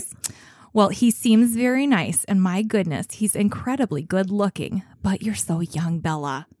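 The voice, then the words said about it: Put-on Minnesota mom accent. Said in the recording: “I'm going to do my Minnesota mom accent real quick”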